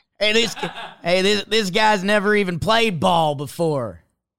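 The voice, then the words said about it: Put-on accent, unconvincing Chicago. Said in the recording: “That's not how they speak in Chicago. ... What accent was that?”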